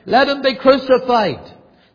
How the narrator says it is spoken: It was with senseless cruelty and with even a note of barbarism that they cried louder and louder

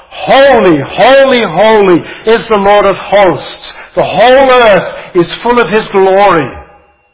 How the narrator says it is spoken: literally shouting out

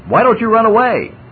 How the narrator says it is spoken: yelled the rioters

